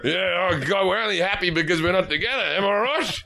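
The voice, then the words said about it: Australian accent. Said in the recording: “the Australian accent”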